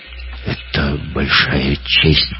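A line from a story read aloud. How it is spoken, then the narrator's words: Mumble. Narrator (Russian): пробормотал Гитлер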